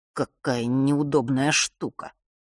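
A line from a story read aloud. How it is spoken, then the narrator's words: Muttered. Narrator (Russian): пробормотал дух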